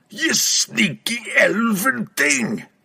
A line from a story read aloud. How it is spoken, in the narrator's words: roared